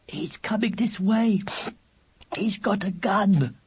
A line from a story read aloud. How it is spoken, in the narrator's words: Weasel whimpered